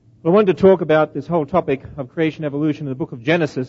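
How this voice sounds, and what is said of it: Australian accent. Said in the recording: “with an Australian accent ... speaks like Crocodile Dundee”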